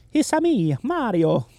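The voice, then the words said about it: Italian-accented Mario character voice. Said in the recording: “If he's just doing an Italian character. ... Just an accent, yes. ... Right, like an accent.”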